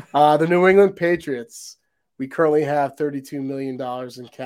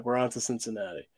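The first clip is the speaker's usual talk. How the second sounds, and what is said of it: Bill Belichick impression. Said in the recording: “imitating Bill Belichick ... That's my best attempt to do a Bill Belichick.”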